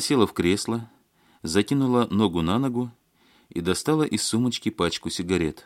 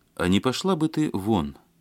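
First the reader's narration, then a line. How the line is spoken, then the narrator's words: Calm speech. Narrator (Russian): спокойно сказал Евгений Рощин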